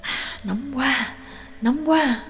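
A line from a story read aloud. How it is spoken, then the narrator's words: Low muttering. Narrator (Vietnamese): thấp giọng lẩm bẩm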